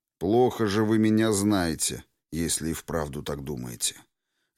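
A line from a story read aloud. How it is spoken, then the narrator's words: Icy cold tone. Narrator (Russian): Ледяным тоном ответил две мишени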